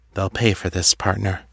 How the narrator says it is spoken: said quietly

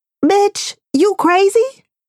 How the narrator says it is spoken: the voice in my head that sounds suspiciously close to my mother's screams

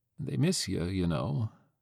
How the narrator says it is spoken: Grandma told her, weakly

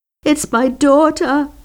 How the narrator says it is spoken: the woman sobbed

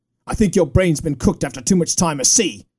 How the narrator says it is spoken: snapped Liam Sanders

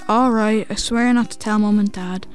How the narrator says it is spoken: he sighed and said

